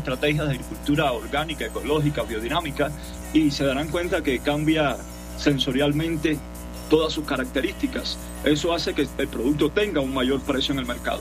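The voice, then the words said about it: Cuban Spanish accent. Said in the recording (Spanish): “su acento, su nacionalidad? ... Yo soy cubano de nacimiento”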